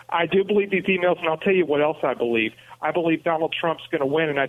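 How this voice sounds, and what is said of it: New York accent. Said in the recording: “What accent do you have? ... It's New York. ... my dad was a New Yorker ... you got your dad's accent”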